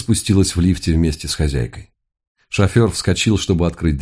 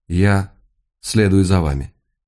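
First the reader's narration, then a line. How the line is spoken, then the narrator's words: Quiet calm female voice. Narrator (Russian): произнесла тихим, спокойным голосом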